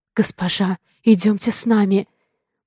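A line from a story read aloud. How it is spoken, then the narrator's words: Whispered. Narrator (Russian): прошептала Элли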